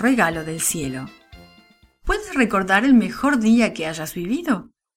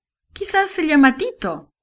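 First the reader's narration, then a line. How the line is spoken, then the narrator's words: Father laughing. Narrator (Spanish): dijo el papá riendo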